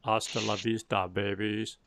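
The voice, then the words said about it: Arnold Schwarzenegger impression. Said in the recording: “in my Arnold Schwarzenegger voice”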